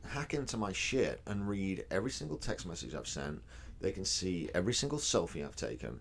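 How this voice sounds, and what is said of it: British accent. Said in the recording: “a popular podcaster with a British accent, mate”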